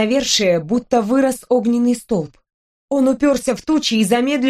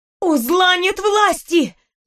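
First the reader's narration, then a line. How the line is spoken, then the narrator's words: Shouted. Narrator (Russian): закричала я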